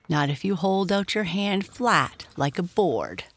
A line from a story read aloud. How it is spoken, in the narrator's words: said George